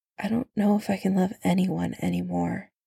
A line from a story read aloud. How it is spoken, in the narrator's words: Bucky said at last, his voice very quiet